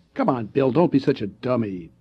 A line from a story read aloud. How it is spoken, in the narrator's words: Ted said scornfully